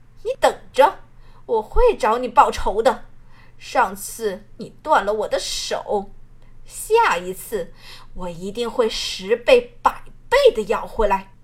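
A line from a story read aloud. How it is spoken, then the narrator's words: Disgusted, through gritted teeth. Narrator (Chinese): 罗云裳厌恶地扫过小满，继而这才咬了咬牙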